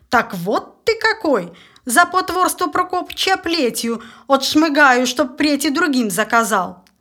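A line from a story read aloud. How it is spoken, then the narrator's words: Loud bark. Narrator (Russian): А приказчик как гаркнет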